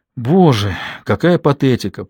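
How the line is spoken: After laughing. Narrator (Russian): произнесла она, отсмеявшись

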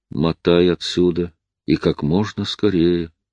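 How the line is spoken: Quiet. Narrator (Russian): тихо сказал

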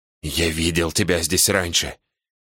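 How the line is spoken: Growled into ear. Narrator (Russian): прорычал Саймон мне в ухо

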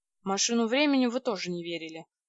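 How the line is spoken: Gloomy. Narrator (Russian): мрачно сказал Вадим

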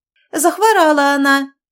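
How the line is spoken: Thin-voiced cry. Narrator (Russian): тонким голосом вскрикнула баба Лида

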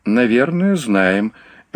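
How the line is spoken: Soft laugh. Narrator (Russian): мягко рассмеялся Айелло

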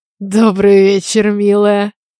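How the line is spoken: Sweet wheeze. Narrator (Russian): Сладко просипел из гостиной голос Стивена

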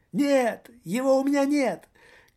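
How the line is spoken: Unnatural thin squeal. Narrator (Russian): Каким-то неестественным тонким голоском взвизгнул господин радио

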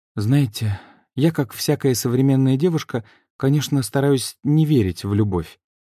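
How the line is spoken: Sigh. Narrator (Russian): вздохнула Таня

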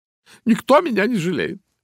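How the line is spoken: Sobbing. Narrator (Russian): всхлипывала она

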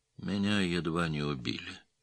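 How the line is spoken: Sad voice. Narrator (Russian): печальным голосом сказал Кязим

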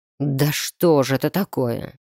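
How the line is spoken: Man's growl. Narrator (Russian): рыкнул мужчина

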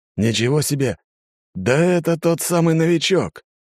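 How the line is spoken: Exclamation. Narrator (Russian): воскликнул копейщик

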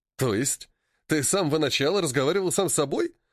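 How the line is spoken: Chuckling. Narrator (Russian): хохотнул Зорге

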